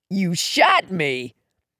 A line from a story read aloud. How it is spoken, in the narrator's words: he croaked